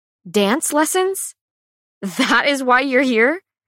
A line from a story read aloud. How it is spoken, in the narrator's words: let out a breathy laugh, thinking he must be joking